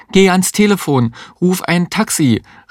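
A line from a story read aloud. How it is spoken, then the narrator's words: Called out. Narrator (German): rief die Existenzialistin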